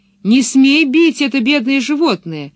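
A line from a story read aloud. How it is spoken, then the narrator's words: Shouted. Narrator (Russian): крикнула она Блумстерлунду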